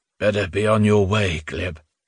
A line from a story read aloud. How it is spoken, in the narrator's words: Spiridon said gloomily